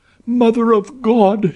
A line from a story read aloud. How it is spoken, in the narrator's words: she cried